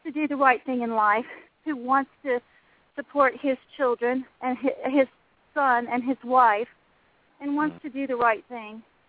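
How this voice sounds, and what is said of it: Out of breath, panting speech. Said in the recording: “I ran up the stairs. ... I'm kind of out of breath right now.”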